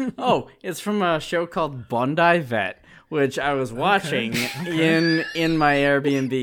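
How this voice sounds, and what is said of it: Usual voice. Nothing is said of it.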